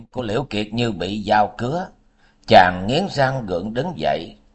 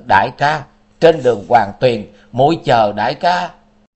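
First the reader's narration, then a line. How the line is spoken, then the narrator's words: Loud scream. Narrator (Vietnamese): Đông Mai dùng dãy hét lớn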